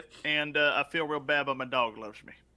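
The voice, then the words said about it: Put-on southern accent. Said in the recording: “He doesn't have a southern accent. I have no idea why I'm doing that.”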